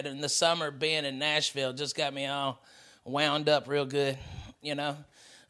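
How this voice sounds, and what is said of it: Strong Southern American accent. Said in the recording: “I'm so Southern, I swear to God. The more time I spend in the South, my accent really pumps up”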